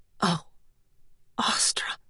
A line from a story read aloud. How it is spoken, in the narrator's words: she whispered